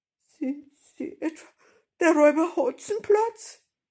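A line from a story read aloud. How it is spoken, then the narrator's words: Frightened, fearful voice. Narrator (German): Da wurde sie blass und mit ängstlicher Stimme fragte sie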